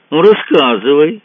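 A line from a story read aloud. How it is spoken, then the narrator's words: Cheerful. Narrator (Russian): сказал он весело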